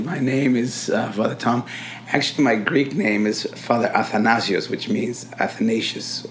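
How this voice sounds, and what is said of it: Congested, unwell-sounding voice. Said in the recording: “sorry for my voice. ... you have a bit of a cold.”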